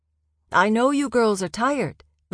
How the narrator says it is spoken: the high priest called out

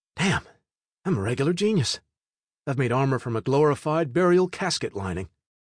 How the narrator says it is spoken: very proud exclaimed to myself

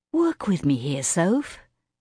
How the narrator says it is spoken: Kara sighed

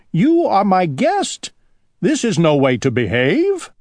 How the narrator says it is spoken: cried Owl

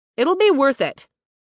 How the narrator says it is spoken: Riley called out

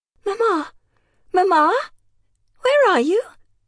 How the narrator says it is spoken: Alicia ... took a deep breath and in a wavering voice called out at the top of her voice

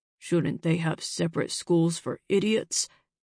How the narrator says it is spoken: Frank muttered

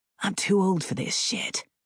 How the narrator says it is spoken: Mac muttered

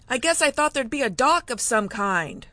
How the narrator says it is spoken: shouted over the sound of the gusts

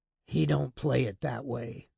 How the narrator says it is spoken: Crewe said wearily

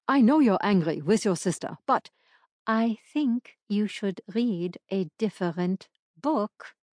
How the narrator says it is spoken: Lily spoke through gritted teeth

